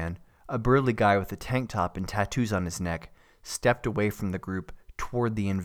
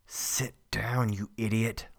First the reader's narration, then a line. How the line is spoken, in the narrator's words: Lane muttered through clenched teeth